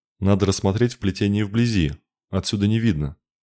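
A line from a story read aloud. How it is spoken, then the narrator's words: Sigh. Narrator (Russian): вздохнул Кенрик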